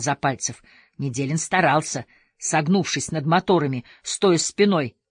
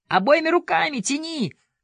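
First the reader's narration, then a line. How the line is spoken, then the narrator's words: Shout. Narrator (Russian): крикнул Запальцев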